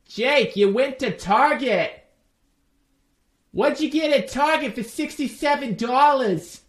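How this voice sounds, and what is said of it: Imitates another person's voice, Boston-style. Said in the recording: “My wife is not from Boston, by the way, but I wanted to try my best Bill Burr impression.”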